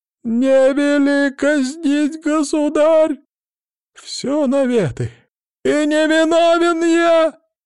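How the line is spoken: Sudden yelling. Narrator (Russian): Вдруг заорал Никитка

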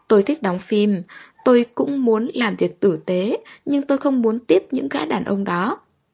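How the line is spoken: Crying. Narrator (Vietnamese): khóc lóc

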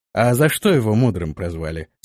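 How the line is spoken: Plain question. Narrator (Russian): спросил он

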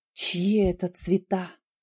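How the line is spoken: Whispered question. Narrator (Russian): спросил Конрад шепотом

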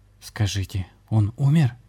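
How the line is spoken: Trembling voice, asking. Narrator (Russian): дрогнувшим голосом спросил Виталий

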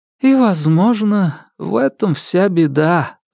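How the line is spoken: Sighing. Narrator (Russian): вздохнула Яридин

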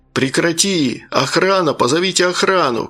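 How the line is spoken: Men shouting. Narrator (Russian): кричали разнимающие мужчины

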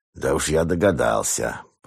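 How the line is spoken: Grumbling. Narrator (Russian): пробурчал

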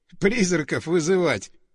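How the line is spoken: Chuckling laugh. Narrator (Russian): хохотнул Леха

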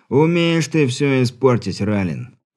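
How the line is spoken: Sighed. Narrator (Russian): вздохнул

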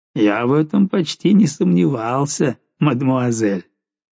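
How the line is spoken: Grumbled while laughing. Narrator (Russian): Папочка ... все еще смеясь, пробурчал

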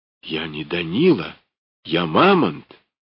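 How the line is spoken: Frantic whisper. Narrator (Russian): зашептала безумно

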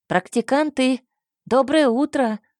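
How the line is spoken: Shouting. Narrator (Russian): кричал Унгис

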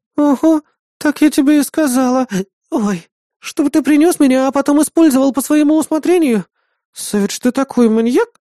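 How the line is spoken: Sly smiling babble. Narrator (Russian): Хитро улыбаясь, пролепетала напарница

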